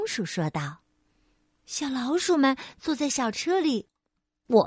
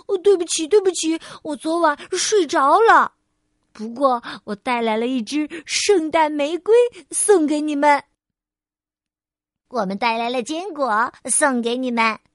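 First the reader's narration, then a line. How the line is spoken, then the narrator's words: Out of breath. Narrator (Chinese): 菲儿气喘吁吁地说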